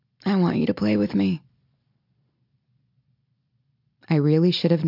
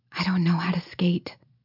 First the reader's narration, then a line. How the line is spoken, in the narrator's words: I whisper